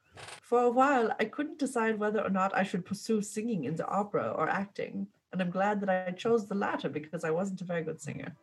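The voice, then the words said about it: Christoph Waltz accent impression. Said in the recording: “Christoph Waltz. And he says, I'm going to try to do his accent.”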